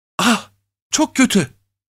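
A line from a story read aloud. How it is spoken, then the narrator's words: Whispered. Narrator (Turkish): diye fısıldadı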